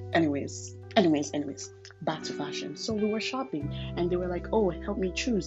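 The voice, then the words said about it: Hybrid accent, not American-sounding. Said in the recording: “my accent is a little bit more hybrid ... you don't sound American ... they can hear the spices through my voice”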